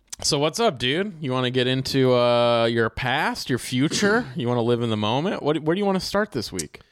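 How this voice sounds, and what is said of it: Laid-back surfer-dude voice. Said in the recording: “You sound like a tarot reader ... You're like the fucking surfer.”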